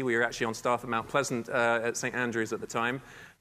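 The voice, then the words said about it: Non-local foreign accent. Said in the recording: “although my accent, clearly I'm not from here”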